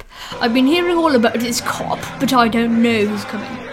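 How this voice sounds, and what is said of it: Put-on accent, unclear which. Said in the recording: “I don't know what accent that was, sorry.”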